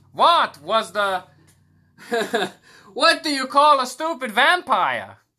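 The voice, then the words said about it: Vampire character voice. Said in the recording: “Why am I a Jewish vampire when I do the vampire voice? Why am I Jewish?”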